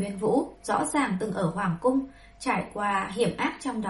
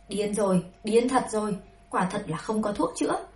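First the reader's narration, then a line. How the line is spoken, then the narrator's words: Angry ranting. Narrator (Vietnamese): Bùi Chư Thành phát giận, tức giận, miệng không ngừng nói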